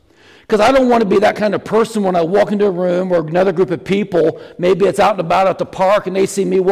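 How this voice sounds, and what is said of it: Usual voice. Nothing is said of it.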